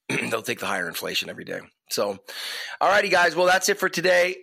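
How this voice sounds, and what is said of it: Voice sounds off, sick. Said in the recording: “Hopefully, my voice is sounding a little bit better. It's like the little nagging cold that won't go away.”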